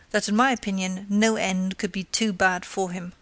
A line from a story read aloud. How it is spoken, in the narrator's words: she replied scornfully